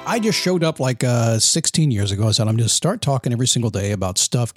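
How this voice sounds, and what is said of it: Polished radio announcer voice. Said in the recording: “This guy's got this radio voice.”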